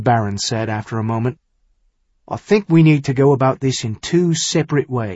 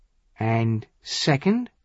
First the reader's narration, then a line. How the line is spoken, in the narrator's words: Wave Thunder said grimly